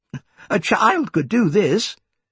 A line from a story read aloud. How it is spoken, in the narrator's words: he said cheerfully